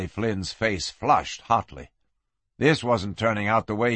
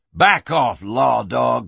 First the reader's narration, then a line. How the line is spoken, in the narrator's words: he snarled